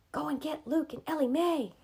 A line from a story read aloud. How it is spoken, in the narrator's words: he whispered